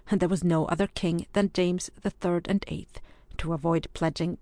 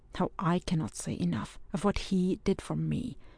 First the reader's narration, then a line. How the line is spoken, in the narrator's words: murmured Ewan